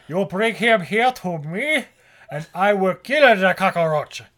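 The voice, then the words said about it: Exaggerated, ridiculous put-on accent. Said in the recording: “most ridiculous accent”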